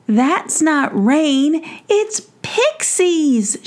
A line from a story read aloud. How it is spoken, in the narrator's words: shouted